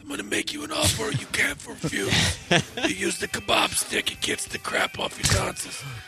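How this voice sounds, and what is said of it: Godfather impression. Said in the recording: “the Godfather will be our co-host”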